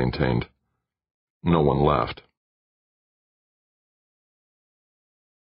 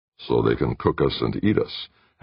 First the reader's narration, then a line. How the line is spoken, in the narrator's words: Hazard muttered, half-joking